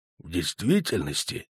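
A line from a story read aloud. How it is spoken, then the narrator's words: Quiet. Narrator (Russian): тихо сказал он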